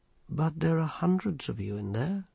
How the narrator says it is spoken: said the patrician calmly

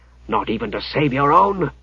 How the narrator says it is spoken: he hissed

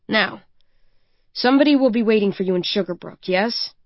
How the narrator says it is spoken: He asks sternly

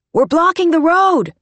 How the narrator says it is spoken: she shouted

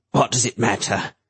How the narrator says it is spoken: he asked bitterly

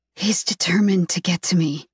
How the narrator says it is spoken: whisper

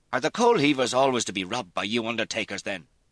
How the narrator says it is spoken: Dermot said angrily

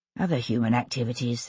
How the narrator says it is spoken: she muttered

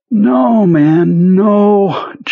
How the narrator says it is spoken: Jonesy said in a watery, almost weeping voice

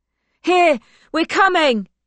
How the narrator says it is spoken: she calls as loudly as she can

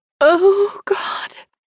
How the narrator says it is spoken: she moans

